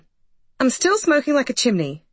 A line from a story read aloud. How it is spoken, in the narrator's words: snapped Rosie